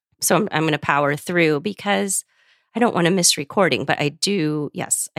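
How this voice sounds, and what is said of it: Scratchy congested voice. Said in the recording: “my voice is very scratchy ... I do have a head cold. So that's why I sound different.”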